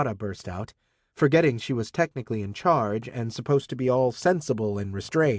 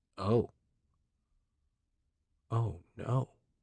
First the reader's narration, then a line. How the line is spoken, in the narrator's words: Rati muttered